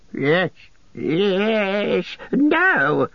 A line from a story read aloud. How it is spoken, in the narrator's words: shrieked Gollum